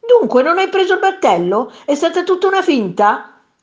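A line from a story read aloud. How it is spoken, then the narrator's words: Man shouting. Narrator (Italian): gridò quel signore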